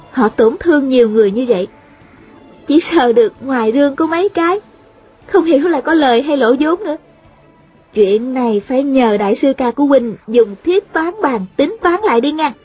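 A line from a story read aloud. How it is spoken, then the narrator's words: Smiling. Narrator (Vietnamese): Thanh Thanh mỉm cười nói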